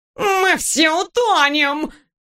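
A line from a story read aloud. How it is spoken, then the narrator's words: Nasal howl, cat. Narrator (Russian): гнусаво взвыл кот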